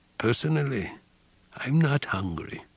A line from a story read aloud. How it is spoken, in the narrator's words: he said